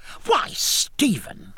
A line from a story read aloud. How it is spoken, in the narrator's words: cried